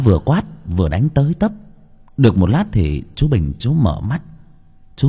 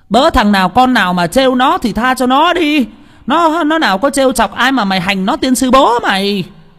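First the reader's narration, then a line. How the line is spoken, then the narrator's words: Woman yelling. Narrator (Vietnamese): bà ấy vừa la lên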